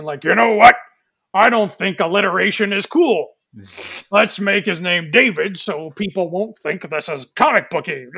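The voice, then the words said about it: Imitates another person's voice. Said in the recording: “my impression of a Weinstein”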